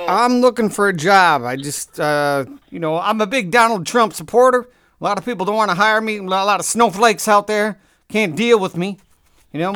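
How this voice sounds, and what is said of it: Shaky put-on Southern accent. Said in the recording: “I've been working on my southern accent, but it's not good. I can't do a southern accent without kind of going in and out of it.”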